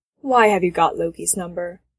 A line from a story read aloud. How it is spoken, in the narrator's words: Kate says flatly